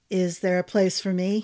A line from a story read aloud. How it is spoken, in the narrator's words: said